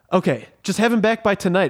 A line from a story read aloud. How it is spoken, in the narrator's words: exclaimed Frasier the Hedgehog